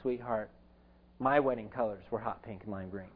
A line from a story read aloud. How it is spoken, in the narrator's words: my mom looked at me very sweetly and calmly said